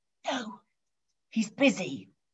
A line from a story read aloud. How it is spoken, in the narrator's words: whispered the child